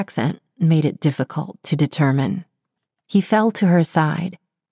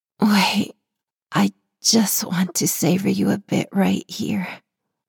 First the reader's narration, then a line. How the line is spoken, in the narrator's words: she moaned